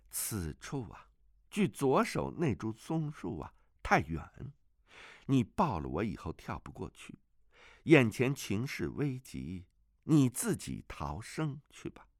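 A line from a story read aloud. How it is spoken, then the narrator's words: Sighing girl. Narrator (Chinese): 那女童摇头叹息，说道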